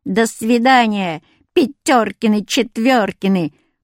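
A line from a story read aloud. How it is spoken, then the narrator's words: Funny singsong voice. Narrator (Russian): пропела смешным голосом Люська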